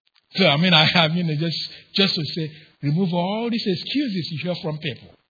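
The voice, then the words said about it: Strong non-native English accent. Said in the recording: “my butchered accent of the English language”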